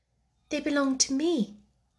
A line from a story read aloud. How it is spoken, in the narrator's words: answered Sarah, quietly